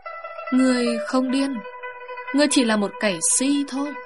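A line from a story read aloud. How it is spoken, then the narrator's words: Sighing. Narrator (Vietnamese): Bà thở dài thốt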